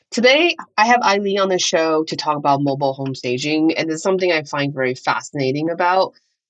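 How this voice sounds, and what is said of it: Congested, nasal voice. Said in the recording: “sorry about my voice. I know it's very congested and very nasally. ... getting over a cold ... I sound a little bit different”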